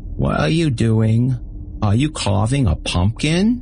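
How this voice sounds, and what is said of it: Mumbled childlike baby voice. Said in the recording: “mumbled in a baby voice”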